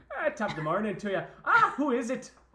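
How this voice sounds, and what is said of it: Put-on Irish accent. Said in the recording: “Can you do an Irish accent? ... Oh, that's good, folks.”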